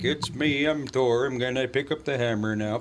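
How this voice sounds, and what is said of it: Put-on Minnesota accent. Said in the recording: “He should have the Minnesota accent.”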